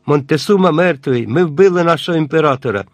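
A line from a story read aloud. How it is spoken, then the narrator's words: Alarmed exclamation. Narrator (Ukrainian): хтось сполошено вигукнув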